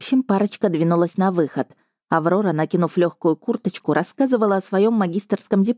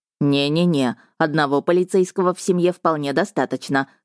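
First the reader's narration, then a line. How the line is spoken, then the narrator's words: Snorting brother. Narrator (Russian): хмыкнул брат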